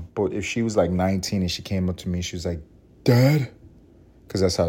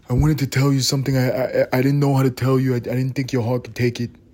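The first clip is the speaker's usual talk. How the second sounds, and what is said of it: Put-on New York accent. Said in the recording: “I'm giving her a New York accent”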